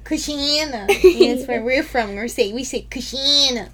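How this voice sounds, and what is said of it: Exaggerated put-on accent. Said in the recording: “You can calm down on the accent.”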